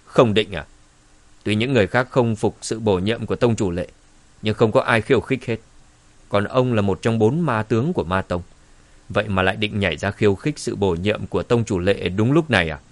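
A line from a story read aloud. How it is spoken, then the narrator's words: Cold. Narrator (Vietnamese): Dương Trấn lạnh lùng nói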